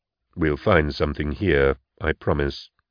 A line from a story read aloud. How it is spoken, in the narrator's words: I said, my voice synthesized, expressionless, through the mechanical voxponder built into my support chair